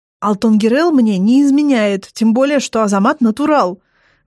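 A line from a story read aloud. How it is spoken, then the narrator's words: Indignant blurt. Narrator (Russian): возмущенно выпаливает Ицаган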